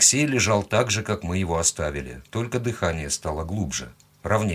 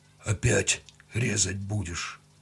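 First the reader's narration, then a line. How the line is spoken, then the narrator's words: Hoarse question. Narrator (Russian): хрипло поинтересовался он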